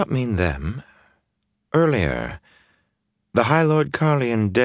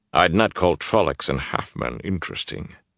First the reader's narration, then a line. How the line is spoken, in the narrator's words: he said dryly